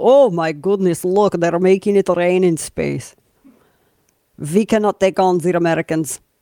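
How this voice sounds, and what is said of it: Put-on Russian accent. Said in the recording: “my Russian accent's too good”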